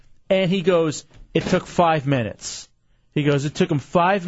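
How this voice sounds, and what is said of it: Usual voice. Nothing is said of it.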